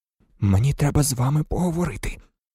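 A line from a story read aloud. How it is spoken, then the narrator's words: Whispered. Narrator (Ukrainian): прошепотів Гаррі Ронові й Герміоні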